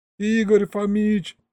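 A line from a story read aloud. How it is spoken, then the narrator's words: Howling again. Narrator (Russian): снова взвыл я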